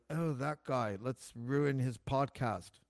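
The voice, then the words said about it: Imitates another person's voice. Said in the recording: “my Elon Musk impersonation. It's not very good”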